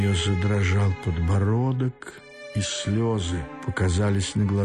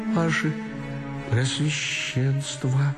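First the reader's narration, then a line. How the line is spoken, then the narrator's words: Thin voice, bitterly crying. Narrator (Russian): проговорила она тонким голоском, уже горько плача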